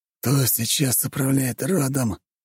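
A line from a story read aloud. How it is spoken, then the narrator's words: Strained hoarse wheeze. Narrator (Russian): с трудом прохрипел барон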